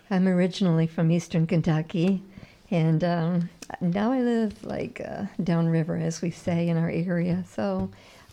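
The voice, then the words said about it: Slight Southern US accent. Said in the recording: “I kind of can hear that southern accent a little bit”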